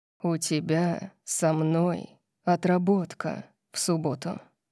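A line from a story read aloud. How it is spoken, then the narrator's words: Seductive purr in ear. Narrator (Russian): сказал Орион мне на ухо, голосом убийственного мурлыканья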